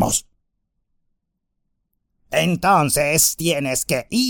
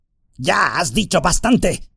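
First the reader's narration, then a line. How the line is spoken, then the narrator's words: Growl. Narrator (Spanish): gruñó Shagrat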